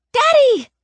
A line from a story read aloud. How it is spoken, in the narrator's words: I scream